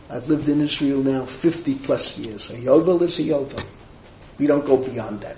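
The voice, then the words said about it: Speaks with a lasting accent. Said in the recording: “my accent hasn't disappeared”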